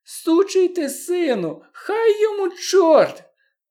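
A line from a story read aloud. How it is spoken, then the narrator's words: High squeaky voice. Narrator (Ukrainian): високим писклявим голосом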